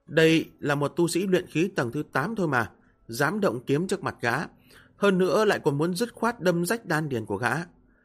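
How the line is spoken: Cold sneering. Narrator (Vietnamese): vị tu sĩ trúc cơ cười nhạt

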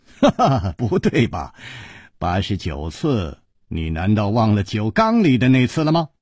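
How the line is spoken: Laughing. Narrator (Chinese): 楚留香笑着说

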